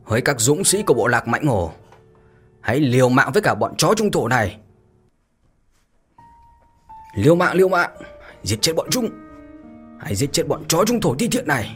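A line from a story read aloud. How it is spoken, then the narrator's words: Furious war cry. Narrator (Vietnamese): Hổ Bào giận dữ mà thét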